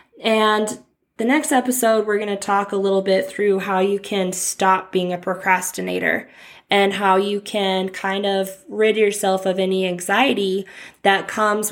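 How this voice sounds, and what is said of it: Sick-sounding voice. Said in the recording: “you can probably hear it in my voice, but I am getting over a cold ... you're going to hear my voice sounding like this”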